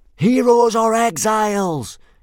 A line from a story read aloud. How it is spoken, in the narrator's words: yelled 18 boys fanatically back